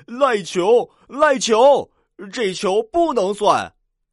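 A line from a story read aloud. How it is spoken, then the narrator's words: Children shouting. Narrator (Chinese): 二二班的小朋友喊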